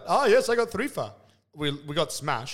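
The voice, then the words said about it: Badly done put-on accent. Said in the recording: “I said the accent bad. I shouldn't have done that.”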